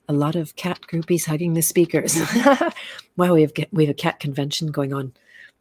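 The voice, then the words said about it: Strained, fading hoarse voice. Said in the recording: “I'm losing my voice now.”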